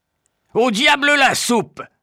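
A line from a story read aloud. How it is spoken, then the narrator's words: Shouted. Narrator (French): crie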